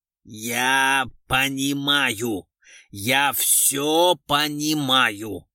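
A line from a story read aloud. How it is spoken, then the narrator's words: Menacing growl. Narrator (Russian): грозно прорычал Орлов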